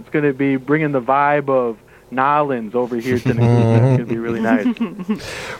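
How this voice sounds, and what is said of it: Put-on Cajun accent. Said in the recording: “Working on that Cajun accent. Working on a little bit of that Cajun. ... That's a good one.”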